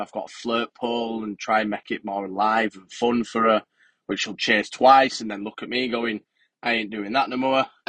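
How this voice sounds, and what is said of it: Yorkshire English accent. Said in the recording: “your accent. I think you're not from a million miles away from where I come from. I'm sure you must be from Yorkshire.”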